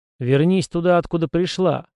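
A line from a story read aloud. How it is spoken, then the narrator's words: Plain. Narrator (Russian): сказал я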